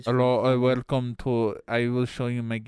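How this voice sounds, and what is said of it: Exaggerated mock foreign accent. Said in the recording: “the foreign accent ... Why'd you go Indian? ... Not Indian. It's like supposed Russian. To be like sweet Norwegian. ... I definitely got like Indian vibe. Like the dude you're talking to on your cell phone.”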